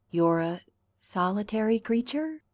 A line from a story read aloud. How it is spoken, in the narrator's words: Derek asks hesitantly